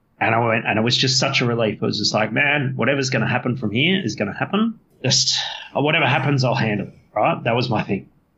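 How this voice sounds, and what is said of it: Emotional, choked-up voice. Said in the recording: “Sorry, I'm getting a bit emotional.”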